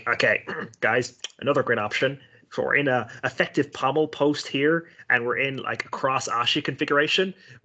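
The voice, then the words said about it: Imitates another person's voice. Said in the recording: “I think I have a decent Gordon impression. I'm always impersonating Gordon”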